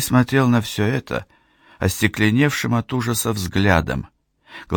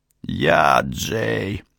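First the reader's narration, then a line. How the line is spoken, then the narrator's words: Hoarse shout. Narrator (Russian): хрипло крикнул он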